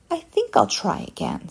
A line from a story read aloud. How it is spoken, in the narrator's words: said Wilbert cheerfully